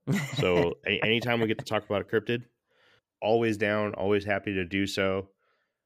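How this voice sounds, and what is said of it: Sounds sick. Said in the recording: “I don't know if anybody can hear it in my voice... waiting on my COVID test... I've been down, uh, hard down for for a couple days now”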